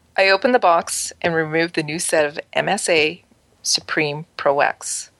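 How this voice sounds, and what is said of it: Sexy or creepy reading voice. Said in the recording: “please read this in a sexy or creepy voice. ... So, all right, I'll do that for you.”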